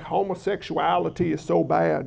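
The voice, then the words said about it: Mock Southern American accent. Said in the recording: “You got to say it with a southern accent”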